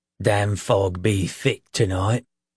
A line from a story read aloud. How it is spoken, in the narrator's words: he groaned, his voice rough as driftwood